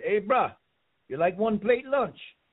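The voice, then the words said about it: Put-on Hawaiian accent. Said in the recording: “if I could get my Hawaiian accent down”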